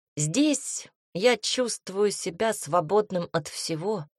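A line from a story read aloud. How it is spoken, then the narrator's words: Loud. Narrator (Russian): произнес громко княжич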